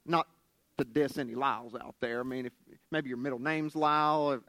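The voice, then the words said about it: Southern West Virginian accent. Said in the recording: “my southern West Virginian accent”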